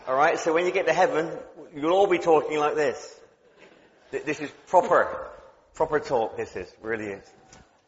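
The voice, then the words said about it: West Country English accent. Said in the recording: “I have a real West Country accent, and this is the accent of heaven”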